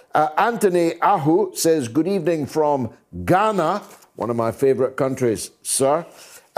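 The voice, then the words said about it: Speaks with a distinctive accent. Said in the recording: “Love your accent.”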